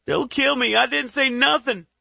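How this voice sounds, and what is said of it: Screaming with deep Southern drawl. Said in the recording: “The man screams in fear, with a deep southern drawl.”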